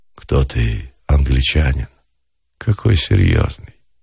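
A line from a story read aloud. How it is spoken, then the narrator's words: Low voice. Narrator (Russian): низким голосом сказала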